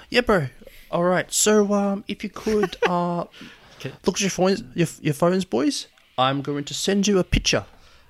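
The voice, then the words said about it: Put-on New Zealand accent. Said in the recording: “Kill the New Zealand accent.”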